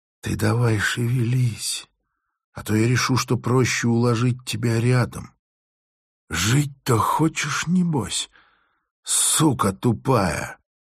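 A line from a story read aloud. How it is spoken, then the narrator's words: Quiet, annoyed. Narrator (Russian): с досадой констатировала, что сцена затягивается, и тихо сказала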